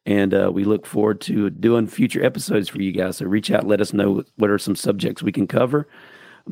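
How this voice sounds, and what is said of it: Unwell, allergy-affected voice. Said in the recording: “apologize for my voice... I got some allergy stuff going on”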